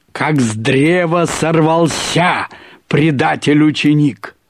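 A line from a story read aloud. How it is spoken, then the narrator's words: Menacing pronouncement. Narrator (Russian): Владимир Николаевич грозно провещал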